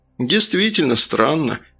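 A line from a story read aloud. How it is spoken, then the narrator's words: Relieved sigh. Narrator (Russian): облегченно вздохнул первый зам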